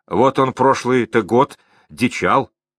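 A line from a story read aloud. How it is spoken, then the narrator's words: Plain. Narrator (Russian): сказал Иван Подобин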